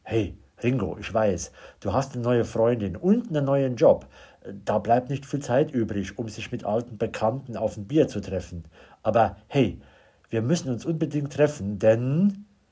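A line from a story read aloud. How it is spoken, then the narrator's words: Lowered voice. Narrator (German): meint mit gesenkter Stimme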